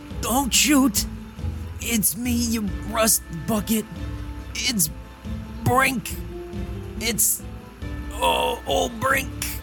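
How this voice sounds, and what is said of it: Hoarse, frail old man voice. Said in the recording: “You hear a hoarse but familiar voice say... he's wrinkled and frail like an elderly elf about to keel over”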